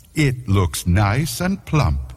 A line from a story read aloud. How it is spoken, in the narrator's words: she said